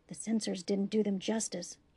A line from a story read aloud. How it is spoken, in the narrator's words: he whispered